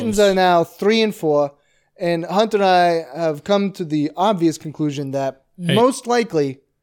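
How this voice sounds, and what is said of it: Weird, menacing put-on accent. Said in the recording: “What was that accent there? ... You had a real weird accent there ... it's like a Christopher Walken sort of thing ... You're sounding like a guy who would take me out on a boat and then shoot me.”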